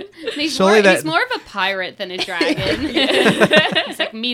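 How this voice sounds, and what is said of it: Usual voice. Nothing is said of it.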